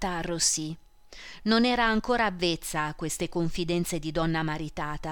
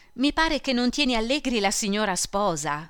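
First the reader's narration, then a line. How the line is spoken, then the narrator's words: Thundering. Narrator (Italian): tuonò Merelli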